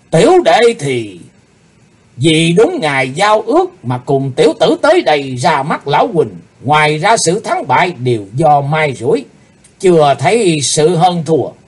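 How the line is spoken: Stern serious. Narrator (Vietnamese): Nam Tà nghiêm nghị

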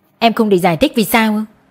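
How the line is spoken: Cold. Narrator (Vietnamese): Tôi lạnh lùng

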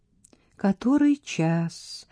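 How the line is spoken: Sleepy question. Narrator (Russian): сонно спросила

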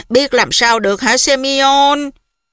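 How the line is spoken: Old woman sighing. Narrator (Vietnamese): Bà Polina Fuchevna thở dài

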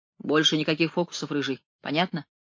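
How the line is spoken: Icy tone. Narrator (Russian): ледяным тоном сказала Вирджиния

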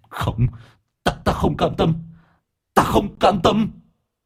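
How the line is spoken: Hissing shriek. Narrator (Vietnamese): Nó rít lên

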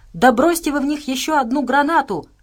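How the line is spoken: Desperate shout. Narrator (Russian): в отчаянии крикнула Настя

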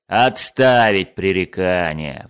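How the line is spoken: Officer roaring. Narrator (Russian): взревел капитан-лейтенант

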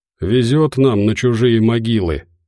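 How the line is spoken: Gloomy remark. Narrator (Russian): мрачно заметил Медведев

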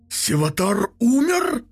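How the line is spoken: Furious bark. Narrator (Russian): рявкнул примарха, разъяряясь

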